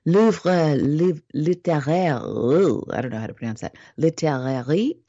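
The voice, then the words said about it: Put-on French pronunciation. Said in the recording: “That's my French accent for you.”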